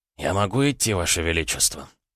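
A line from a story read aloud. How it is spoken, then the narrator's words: Quiet question. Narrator (Russian): тихо спросил Аракчеев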